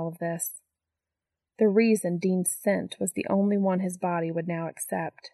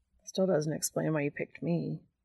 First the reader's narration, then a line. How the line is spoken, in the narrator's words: Dean mutters, though he looks significantly more mollified